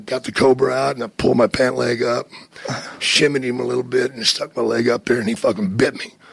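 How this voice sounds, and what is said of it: Usual voice. Nothing is said of it.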